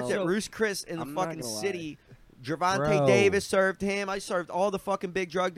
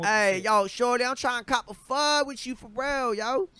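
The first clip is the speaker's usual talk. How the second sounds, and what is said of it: Put-on Baltimore accent. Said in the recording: “is so good at the Baltimore... I fucking brushed up on my Baltimore accent.”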